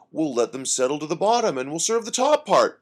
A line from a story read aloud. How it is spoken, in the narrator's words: Pete said cheerfully